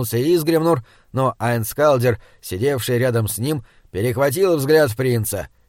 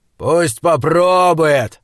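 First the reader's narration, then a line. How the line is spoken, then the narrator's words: Growl. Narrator (Russian): прорычал Айнскалдер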